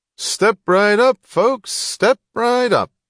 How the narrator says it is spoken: the barker was yelling cheerfully

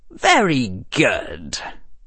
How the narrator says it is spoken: Harry said dryly

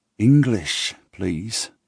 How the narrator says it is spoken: I mumble

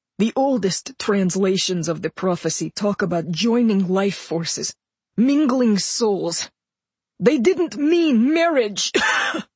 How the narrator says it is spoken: He choked, spat more blood, and said

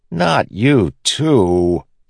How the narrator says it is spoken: Kaladin said, groaning

